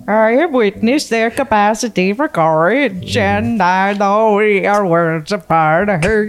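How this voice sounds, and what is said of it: Put-on Swedish accent. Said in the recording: “you have to do it with a Swedish accent.”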